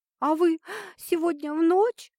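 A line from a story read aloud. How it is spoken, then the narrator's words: Sobbing voice. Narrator (Russian): вырвал его из нирваны всхлипывающий голос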